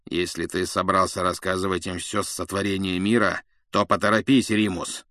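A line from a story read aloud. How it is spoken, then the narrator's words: Grumbling. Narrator (Russian): проворчал Блэк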